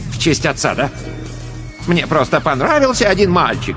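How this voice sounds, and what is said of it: Mocking imitation of another's voice. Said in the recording (Russian): “передразнила ее Лосева”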